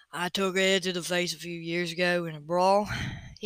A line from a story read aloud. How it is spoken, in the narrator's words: he volunteered in his deep, slow drawl